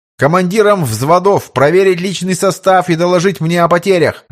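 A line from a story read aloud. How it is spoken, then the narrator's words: Shouted order. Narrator (Russian): выкрикнул Карпов приказ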